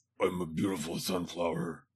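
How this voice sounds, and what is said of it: Raspy character voice. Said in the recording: “in that raspy, voice.”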